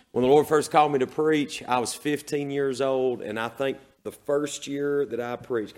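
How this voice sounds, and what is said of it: Exhausted, worn-out voice. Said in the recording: “my voice is as exhausted as it has ever been”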